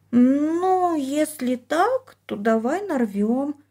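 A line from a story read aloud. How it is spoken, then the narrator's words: Hesitant drawl. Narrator (Russian): неуверенно протянула она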